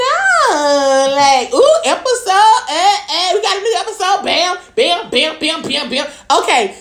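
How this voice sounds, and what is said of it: Usual voice. Nothing is said of it.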